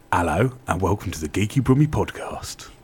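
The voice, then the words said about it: Attempted Cockney accent. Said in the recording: “that's probably the least creepy voice you've done yet ... That was me going trying to be Cockney ... Keep trying ... Emphasis on try.”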